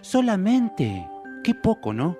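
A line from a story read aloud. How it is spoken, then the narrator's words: Exclaiming. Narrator (Spanish): exclamó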